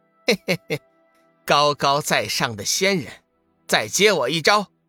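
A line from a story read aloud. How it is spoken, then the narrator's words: Chuckling. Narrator (Chinese): 志远嘿嘿一笑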